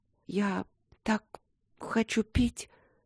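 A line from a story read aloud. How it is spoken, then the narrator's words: Faint whisper. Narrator (Russian): прошептала она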